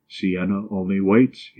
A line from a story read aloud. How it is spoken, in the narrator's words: he replied